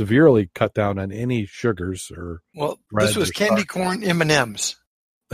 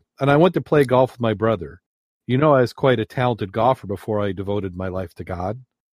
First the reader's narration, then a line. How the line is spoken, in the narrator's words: sighed the sister